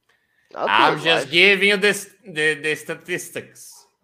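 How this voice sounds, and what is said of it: Put-on Russian accent. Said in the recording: “I sound very Russian right now.”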